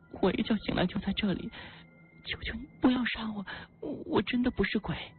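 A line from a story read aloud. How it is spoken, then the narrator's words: Girl crying. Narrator (Chinese): 女孩哭泣说道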